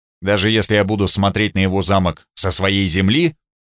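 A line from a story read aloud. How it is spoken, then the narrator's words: Snorting. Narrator (Russian): Он хмыкнул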